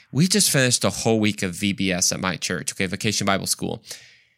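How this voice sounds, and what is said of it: Groggy, hoarse, stuffy voice. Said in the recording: “my voice is a little like, what's the word in English? Like groggy. Horse ... my voice is somewhat out and I sound even a little stuffy”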